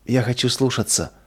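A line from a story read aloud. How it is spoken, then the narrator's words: Tearful whisper. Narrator (Russian): прошептала сквозь слезы Нина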